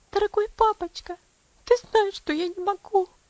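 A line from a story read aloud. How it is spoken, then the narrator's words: Sobbing. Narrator (Russian): всхлипнула она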